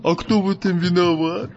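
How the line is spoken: Grumbling. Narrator (Russian): Проворчал Вахмурка

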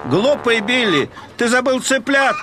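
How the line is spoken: Farmer shouting after someone. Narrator (Russian): прокричал ему вдогонку фермер Маккол

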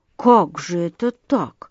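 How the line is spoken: Distracted muttering. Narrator (Russian): бормотал он, собираясь с мыслями

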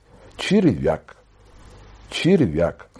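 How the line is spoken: Quiet but distinct. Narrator (Russian): в этой тишине Джоннины адъютанты успели 2 раза негромко, но внятно сказать

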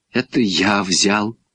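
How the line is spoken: Strained, forced out words. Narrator (Russian): сказал Саша, и больше он ничего не мог выдавить

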